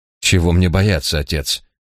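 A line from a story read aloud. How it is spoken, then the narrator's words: Sharp objection. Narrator (Russian): резким тоном возразил Эдвард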